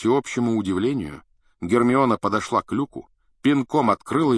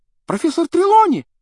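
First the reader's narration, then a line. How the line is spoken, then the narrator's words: Sudden startling exclamation. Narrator (Russian): Вдруг воскликнула Лаванда так, что все вздрогнули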